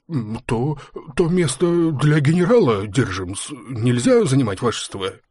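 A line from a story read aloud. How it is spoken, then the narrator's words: Mumbling, babbling. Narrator (Russian): пролепетал небритый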